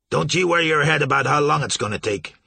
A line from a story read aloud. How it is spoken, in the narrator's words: snapped